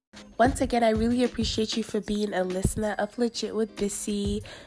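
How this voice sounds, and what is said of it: Rusty, unwell-sounding voice. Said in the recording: “I don't feel too well, and that's why my voice sounds rusty”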